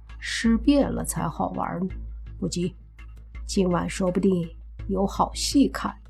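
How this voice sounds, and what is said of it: Quiet, hushed speaking. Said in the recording (Chinese): “小声地说”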